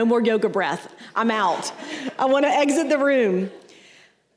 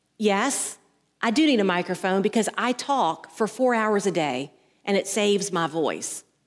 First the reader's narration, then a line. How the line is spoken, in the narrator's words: the teacher just calmly says